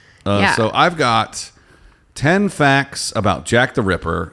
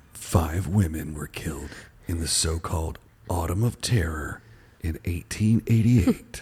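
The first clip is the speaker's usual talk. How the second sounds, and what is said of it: Scary radio-style voice. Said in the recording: “I'm going to try and do all mine in a radio voice. ... Should I do scary voice?”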